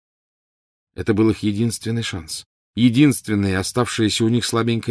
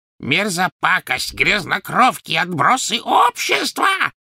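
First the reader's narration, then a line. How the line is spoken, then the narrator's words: Shrieking after them. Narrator (Russian): завизжала она им вслед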